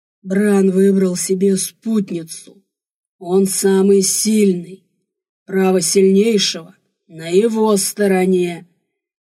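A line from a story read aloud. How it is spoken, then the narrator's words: Warrior's echoing growl. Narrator (Russian): рычал мой воин, эхо разносило грозный рык по пещере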